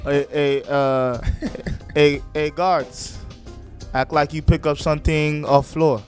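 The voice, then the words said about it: Put-on Swedish accent. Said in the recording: “my Swedish coach ... Use the accent”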